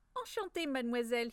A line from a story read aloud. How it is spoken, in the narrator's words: he said in a strong Italian accent